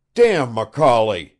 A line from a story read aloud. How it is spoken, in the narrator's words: thundered Sitnikov